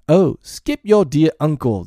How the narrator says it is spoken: the bellman exclaimed

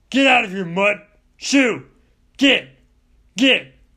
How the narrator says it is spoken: snarl and snap

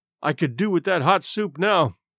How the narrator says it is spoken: He added mournfully

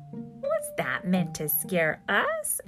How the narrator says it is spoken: asked the monkeys, laughing

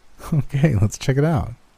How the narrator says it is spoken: said with a giggle

